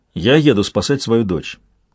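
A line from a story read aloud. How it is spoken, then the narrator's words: Plain. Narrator (Russian): сказал я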